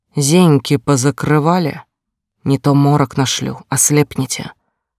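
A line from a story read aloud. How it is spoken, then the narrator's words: Hissing. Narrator (Russian): Зашипела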